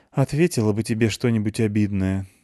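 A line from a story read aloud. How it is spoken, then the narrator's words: Sighing. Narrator (Russian): вздохнула девушка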